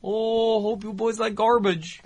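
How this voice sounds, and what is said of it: Put-on Minnesota or Ohio accent. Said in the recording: “She was very Minnesota or Ohio... It was like it was an Ohio accent... it's actually just the Minnesota accent”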